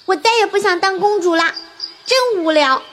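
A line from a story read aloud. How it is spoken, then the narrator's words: Loud shout. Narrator (Chinese): 大声喊道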